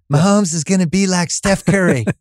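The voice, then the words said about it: Imitates another person's voice. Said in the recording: “You want to do my imitation of your imitation of me? ... Should I be insulted? Because I don't sound like that at all.”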